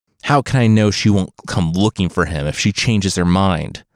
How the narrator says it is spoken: Fusa spat

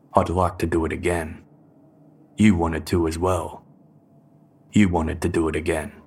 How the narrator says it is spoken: Watts responded coldly

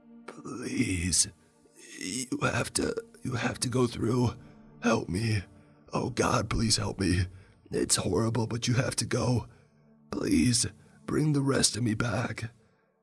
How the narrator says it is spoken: Jacob feebly gripped my wrist with a trembling hand, looked toward but not at me, and said

